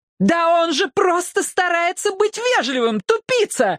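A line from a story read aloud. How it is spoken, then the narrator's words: Yelling. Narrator (Russian): заорала она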